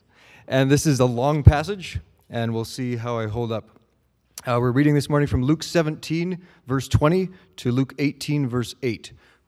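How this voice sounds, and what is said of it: Hoarse voice. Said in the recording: “my voice is a little bit hoarse”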